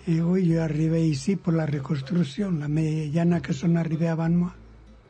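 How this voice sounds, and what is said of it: Spanish accent speaking French. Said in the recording (French): “C'est toujours l'accent qui reste, hein. L'accent, vous le gardez un petit peu”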